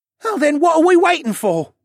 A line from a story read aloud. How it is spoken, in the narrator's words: Ryland piped up